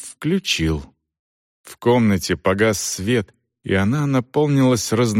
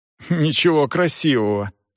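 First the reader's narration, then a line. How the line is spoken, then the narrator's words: Snort. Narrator (Russian): фыркнула Ванда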